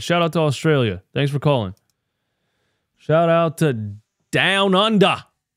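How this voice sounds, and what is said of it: Put-on Australian accent. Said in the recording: “Sorry for my version of an Australian accent”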